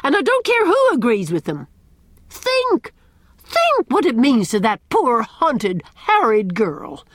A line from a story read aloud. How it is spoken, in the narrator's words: cried Miss Cornelia